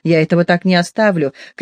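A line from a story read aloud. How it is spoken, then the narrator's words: Shouting. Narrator (Russian): кричал он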